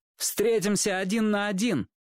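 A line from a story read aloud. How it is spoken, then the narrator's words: Loud. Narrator (Russian): громко сказал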